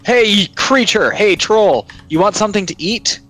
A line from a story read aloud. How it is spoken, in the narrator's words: shout